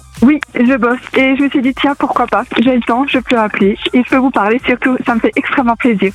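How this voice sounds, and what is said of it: Alsatian regional French accent. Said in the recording (French): “Et t'es alsacienne, non? ... J'ai reconnu un peu l'accent. ... Ah, c'est vrai qu'on l'entend assez bien.”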